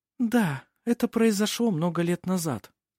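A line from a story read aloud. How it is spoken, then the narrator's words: Soft reply. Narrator (Russian): мягко ответила Феодора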